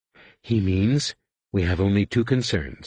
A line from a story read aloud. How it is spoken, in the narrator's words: Alima said, the silkiness of her voice belying the steel of her words